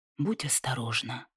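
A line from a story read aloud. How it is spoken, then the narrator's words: Quiet. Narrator (Russian): добавил он тихо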